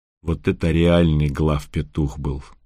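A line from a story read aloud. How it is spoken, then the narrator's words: Gloomy devil. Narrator (Russian): сказал мрачно кто-то из чертей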